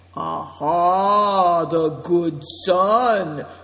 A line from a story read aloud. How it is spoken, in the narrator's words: cried Greencoat